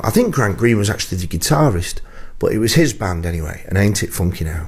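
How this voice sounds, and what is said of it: Lancashire English accent. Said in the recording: “my Lancashire accent”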